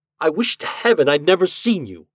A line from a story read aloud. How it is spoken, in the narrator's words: I cried